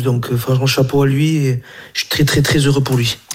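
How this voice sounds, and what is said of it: Slight Basque French accent. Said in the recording (French): “il est basque ... il y a un petit accent”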